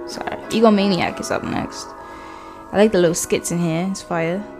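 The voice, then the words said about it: Put-on accent. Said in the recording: “Don't mind my accent. I like to do this sometimes.”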